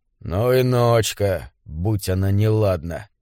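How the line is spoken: Irritated grumbling mutter. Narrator (Russian): в сердцах пробурчал он

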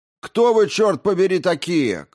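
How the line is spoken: Shouted. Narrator (Russian): крикнул кто-то из тараанцев

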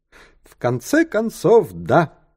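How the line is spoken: Cheerful. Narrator (Russian): весело сказал Тристран

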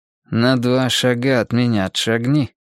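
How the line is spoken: Commanding through gritted teeth. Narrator (Russian): сквозь зубы скомандовал он

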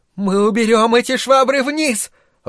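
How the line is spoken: Shouted. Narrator (Russian): выкрикнула его мать

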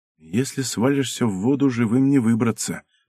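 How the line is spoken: Whisper. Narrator (Russian): прошептала Ирка

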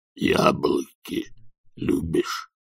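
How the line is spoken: Grumbling. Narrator (Russian): проворчал Банджо

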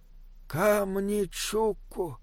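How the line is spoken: Breathless exhale. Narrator (Russian): выдохнул Бинабик

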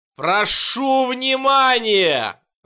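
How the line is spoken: Yelled. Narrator (Russian): заорал он

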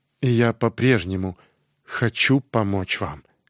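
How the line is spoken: Quiet, after a pause. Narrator (Russian): Помолчав немного, он тихо сказал

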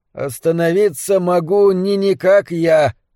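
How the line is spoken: Rough strange voice, laughing. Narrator (Russian): грубым странным голосом сказал он и рассмеялся

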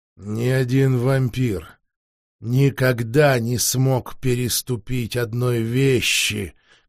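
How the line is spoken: Hollow, muffled. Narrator (Russian): глухо проговорил Вениамин

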